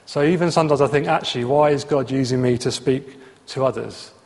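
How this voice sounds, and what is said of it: Southeast English regional accent, not RP. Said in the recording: “my accent, I'm born in Essex, grew up in Luton, I went to university in Bristol, I've now ended up somewhere outside of Slough. It's not Queen's English, right? I'm not going to get a job reading the news on the BBC with my accent.”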